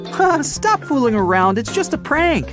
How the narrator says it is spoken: Rhonda began laughing and exclaimed

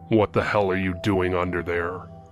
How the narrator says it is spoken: His voice was deep and gruff

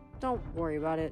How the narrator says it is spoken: Frank mumbled

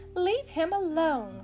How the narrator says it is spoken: cried the mother

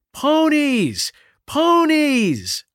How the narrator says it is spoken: shouted, clapping and bouncing on the balls of her feet

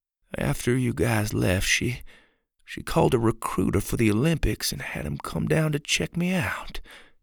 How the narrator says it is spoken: he said softly

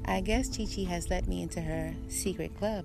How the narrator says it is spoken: said

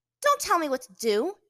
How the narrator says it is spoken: she snapped at him

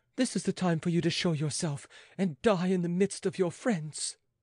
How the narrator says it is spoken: she cried

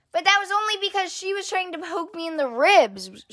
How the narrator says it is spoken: shouted brother

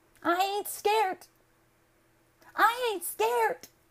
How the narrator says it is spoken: The girl gave a shriek

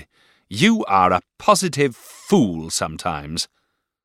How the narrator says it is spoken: said Miss Murdstone, rising angrily

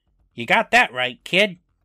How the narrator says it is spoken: Slappy, as Slappy, says, in a completely different voice

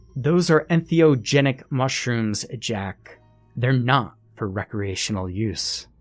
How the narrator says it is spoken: Suddenly, she shouted

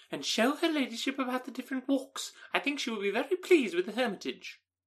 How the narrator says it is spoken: cried her mother

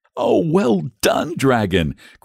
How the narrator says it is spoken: cried the boy excitedly

